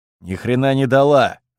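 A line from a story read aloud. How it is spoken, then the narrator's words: Irritated reply. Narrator (Russian): раздраженно ответил Бердышев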